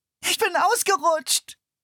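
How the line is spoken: Wailing. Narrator (German): jammerte sie

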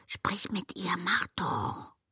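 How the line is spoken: Whisper. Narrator (German): hörte ein Flüstern

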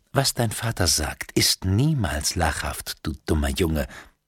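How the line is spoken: Gentle. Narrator (German): sagte Maud, doch ihre Stimme war sanft

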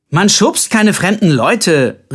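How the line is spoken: Calling after someone. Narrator (German): rief Colbert ihm hinterher

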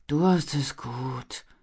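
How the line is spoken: Sighed. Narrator (German): seufzte Armin

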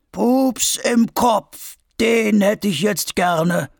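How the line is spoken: Sudden gnarled old man's distant call. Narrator (German): ruft auf einmal Opa Vulko mit knorriger Stimme vom Fuß des Vulkans

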